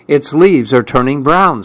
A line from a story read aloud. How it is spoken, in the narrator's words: said Fletcher